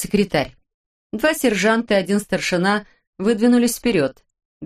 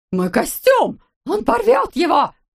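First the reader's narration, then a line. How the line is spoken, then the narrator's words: Sudden high-pitched shriek. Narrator (Russian): Неожиданно тонко завизжал Маржуев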